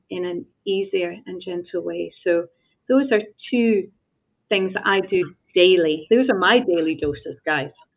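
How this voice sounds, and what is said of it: Calm accented voice, soothing cadence. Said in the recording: “Your accent from my standpoint and the cadence of your voice is so calming that I find myself immediately slowing down”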